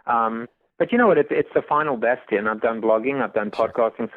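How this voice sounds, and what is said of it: East Coast Staten Island accent. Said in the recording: “great East Coast voice accent ... Staten Island”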